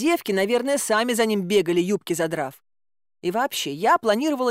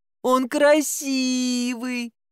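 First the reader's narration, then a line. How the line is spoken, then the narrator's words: Whimpering. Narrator (Russian): продолжала поскуливать я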